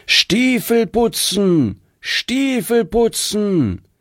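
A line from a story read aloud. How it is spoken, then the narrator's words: Loud street cry. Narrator (German): hörte man ihn laut rufen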